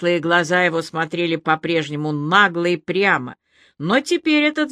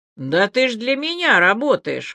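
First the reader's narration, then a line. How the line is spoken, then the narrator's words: Snort while chewing. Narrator (Russian): хмыкнул Серый, не переставая жевать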